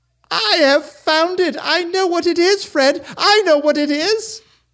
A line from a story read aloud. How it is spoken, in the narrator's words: the sister cried out